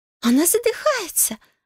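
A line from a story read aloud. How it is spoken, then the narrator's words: Shriek. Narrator (Russian): завизжала Майрим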